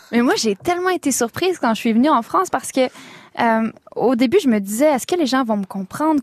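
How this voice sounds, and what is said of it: Quebec French accent. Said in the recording (French): “cet accent québécois”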